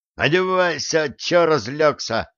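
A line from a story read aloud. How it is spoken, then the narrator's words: Annoyed shout. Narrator (Russian): досадливо крикнул бармен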